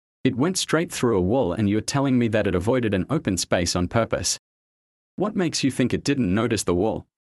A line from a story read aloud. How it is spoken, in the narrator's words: Richard said